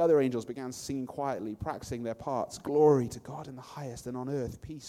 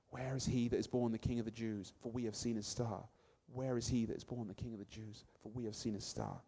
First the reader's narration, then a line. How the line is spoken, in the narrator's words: Caspar too had started whispering